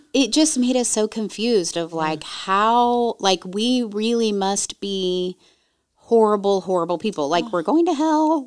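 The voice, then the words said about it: Bubbly, happy-sounding voice. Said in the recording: “You could probably hear it in my voice. Like, I'm so bubbly and happy.”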